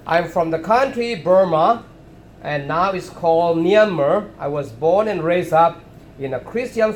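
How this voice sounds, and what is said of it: Non-native English accent. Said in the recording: “my English accent is different from you all”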